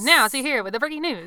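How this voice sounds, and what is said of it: Old-time transatlantic radio announcer voice. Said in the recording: “great transatlantic radio voice ... I love that old voice ... You had to have this like high pitched voice”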